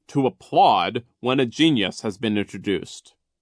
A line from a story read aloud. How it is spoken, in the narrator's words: he said sternly